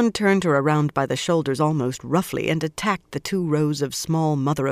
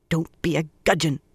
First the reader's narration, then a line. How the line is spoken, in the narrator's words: grumbled